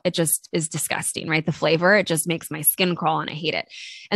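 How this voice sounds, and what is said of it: Congested voice from a cold. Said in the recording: “I've been sick, and I don't know if you guys can tell in my voice, but I've had a cold for the last couple of days”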